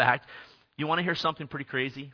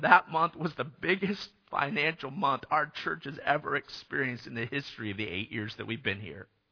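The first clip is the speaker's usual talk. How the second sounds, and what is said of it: Emotional, choked-up speaking voice. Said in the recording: “I'm going to get emotional.”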